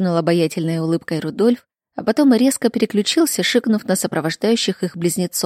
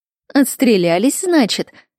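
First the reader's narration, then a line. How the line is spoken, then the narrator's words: Elderly woman laughing. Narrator (Russian): рассмеялась пожилая акушерка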